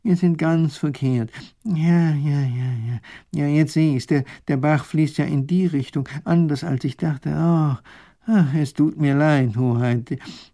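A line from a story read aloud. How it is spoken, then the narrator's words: Groaning. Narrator (German): stöhnt der Professor auf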